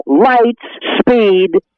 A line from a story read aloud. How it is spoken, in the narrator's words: You'll hear him yell